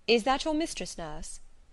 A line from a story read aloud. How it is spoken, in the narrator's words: asked Mr